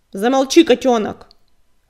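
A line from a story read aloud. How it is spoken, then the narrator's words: Harsh bark. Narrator (Russian): рявкнул коготь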